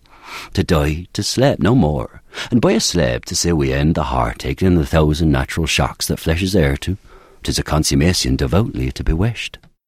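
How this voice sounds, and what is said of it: Shakespearean accent, northern English/Irish-like. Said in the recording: “less portentous than any version of that that I've ever heard, it sounds like most English people in 1600s spoke more like people in the north of England and Ireland do now”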